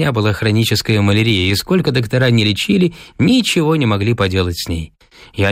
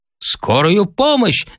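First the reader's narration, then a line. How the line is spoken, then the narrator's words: Shouted. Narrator (Russian): закричал я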